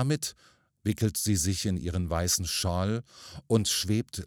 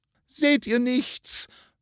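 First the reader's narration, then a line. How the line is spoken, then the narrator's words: Dull hollow terrified cry. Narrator (German): ruft Adelgunde mit dem dumpfen, hohlen Ton des tiefsten Entsetzens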